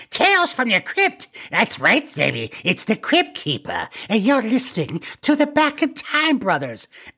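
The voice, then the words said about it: Crypt Keeper character impression. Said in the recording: “do a great impression ... You nailed that. That's so good.”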